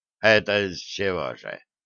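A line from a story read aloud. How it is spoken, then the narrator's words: Snorting inquiry. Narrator (Russian): хмыкнув, поинтересовался Сталин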